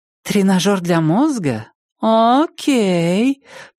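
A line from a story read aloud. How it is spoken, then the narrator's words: Drawling. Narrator (Russian): протянула ведущая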